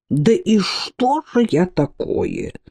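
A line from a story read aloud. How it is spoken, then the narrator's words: Muttering. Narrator (Russian): пробормотал Кличбор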